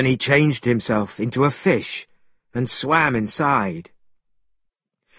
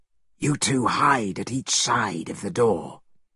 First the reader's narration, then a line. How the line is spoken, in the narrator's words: Monkey whispered